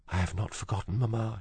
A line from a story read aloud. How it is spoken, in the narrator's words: she whispered